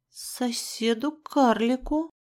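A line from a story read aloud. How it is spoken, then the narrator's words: Breathed out. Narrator (Russian): выдохнула я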